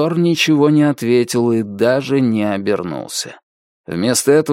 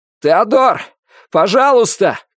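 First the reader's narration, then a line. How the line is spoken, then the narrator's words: Shouting over screeching rails. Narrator (Russian): крикнул он, пока рельсы переходили от скрипа к крику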